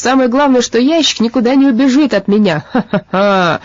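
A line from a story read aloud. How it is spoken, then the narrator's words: Loud laughter. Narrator (Russian): Он разразился громким хохотом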